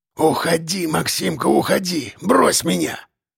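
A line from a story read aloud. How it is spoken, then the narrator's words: Resigned wheeze. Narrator (Russian): Просипел он, и в голосе его слышалась странная смиренность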